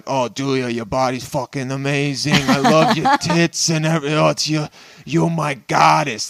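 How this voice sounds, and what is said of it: Put-on Italian accent. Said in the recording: “I don't know why I'm going to do an Italian accent”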